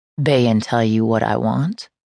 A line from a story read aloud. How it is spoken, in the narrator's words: Raphael asked, his voice stripped of emotion